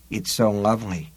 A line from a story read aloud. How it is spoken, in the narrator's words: Susanna murmured